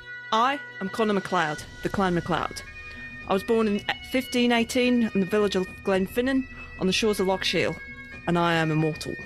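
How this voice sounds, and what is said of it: Australian accent. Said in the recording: “It's very good. ... you could have not skipped a beat and gone with Loch Sheila to make it even more Aussie.”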